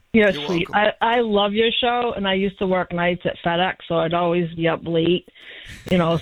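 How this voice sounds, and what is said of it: Strong regional accent. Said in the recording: “I hate my accent”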